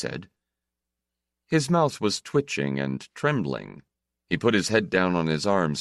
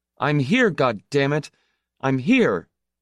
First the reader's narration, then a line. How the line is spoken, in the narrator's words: he said loudly